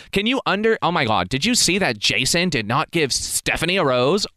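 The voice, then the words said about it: Valley Girl impression. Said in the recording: “This is a Valley Girl impersonation.”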